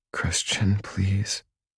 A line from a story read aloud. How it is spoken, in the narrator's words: Anna whispers